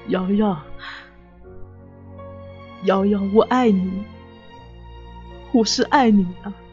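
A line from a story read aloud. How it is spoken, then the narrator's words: Panting, tearful. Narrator (Chinese): 喘着粗气，带着哭腔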